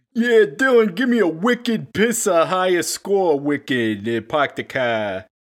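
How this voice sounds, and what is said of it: Exaggerated Boston accent. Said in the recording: “in his classic Boston accent ... speak in a Boston accent to just make it a little bit more real”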